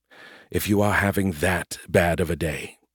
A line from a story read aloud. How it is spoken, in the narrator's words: Scarandum said quietly